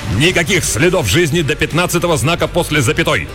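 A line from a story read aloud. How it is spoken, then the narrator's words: Swearing bark. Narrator (Russian): рявкнул выматерившись оператор ползунов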